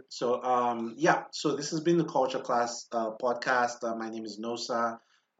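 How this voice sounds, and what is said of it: African accent blending with American. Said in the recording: “I feel like my accent is changing. I'm in between ... the African accent comes out, but I'm in between”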